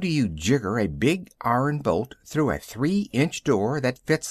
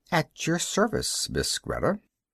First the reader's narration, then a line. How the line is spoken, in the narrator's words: murmuring